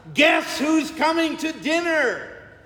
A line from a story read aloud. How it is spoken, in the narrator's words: shouts to his sister Martha